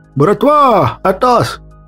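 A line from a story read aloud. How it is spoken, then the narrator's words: Shouted through doorway. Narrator (Russian): крикнул я в открытую дверь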